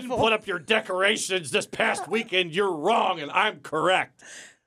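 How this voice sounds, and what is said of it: Imitates another person's voice, yelling. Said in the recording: “That's a good impression. ... Of you yelling?”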